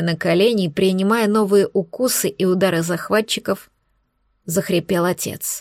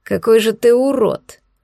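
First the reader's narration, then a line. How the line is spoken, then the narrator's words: Growling voice from above. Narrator (Russian): Послышался над головой голос с рычащими нотками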